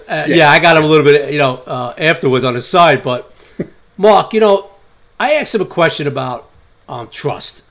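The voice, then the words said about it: New York accent. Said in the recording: “as soon as I opened my mouth, he heard the New York accent”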